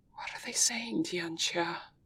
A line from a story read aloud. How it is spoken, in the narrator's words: He asks, barely above a whisper